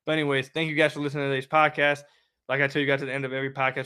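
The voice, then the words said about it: Raspy, sick-sounding voice. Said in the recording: “I'm sure you guys can hear it in my voice... my raspy voice and, and, and the way I sounded wasn't too bad... would like to not be sick”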